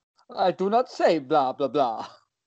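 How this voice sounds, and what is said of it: Spooky vampire character voice. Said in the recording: “do your best spooky voice ... Was that from Hotel Transylvania?”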